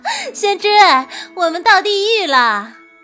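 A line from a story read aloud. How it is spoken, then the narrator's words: Hearty laughter. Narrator (Chinese): 白姬却 大笑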